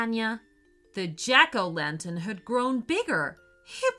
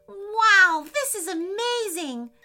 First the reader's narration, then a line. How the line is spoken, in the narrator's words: shouted PJ, jumping for joy